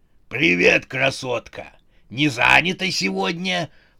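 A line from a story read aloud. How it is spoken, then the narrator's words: Hoarse elderly man. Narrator (Russian): прохрипел пожилой бугай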